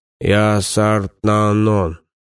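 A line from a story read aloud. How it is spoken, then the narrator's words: Hollow dead voice. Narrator (Russian): ответил покойник глухим голосом, набирая воздух, чтобы задействовать голосовые связки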